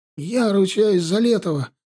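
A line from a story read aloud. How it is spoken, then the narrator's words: Sudden hoarse rasp. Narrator (Russian): неожиданно захрипел Вадим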